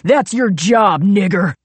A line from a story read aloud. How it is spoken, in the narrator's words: Royal screamed